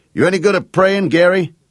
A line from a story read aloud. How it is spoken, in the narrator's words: Jake shouted